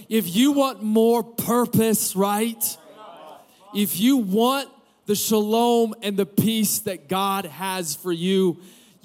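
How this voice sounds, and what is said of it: Strained, hoarse preaching voice. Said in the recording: “I'm my throat, I'm losing my voice here”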